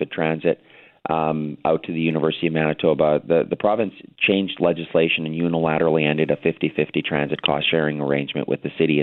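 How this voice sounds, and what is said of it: Hoarse, partly lost voice. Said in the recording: “Sorry my voice is a bit gone.”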